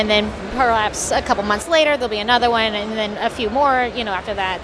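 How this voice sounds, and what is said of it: Southern American accent. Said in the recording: “You guys sound like you're from Atlanta. ... is from the Carolinas, and I've spent enough time with her this weekend that I've picked up on the accent.”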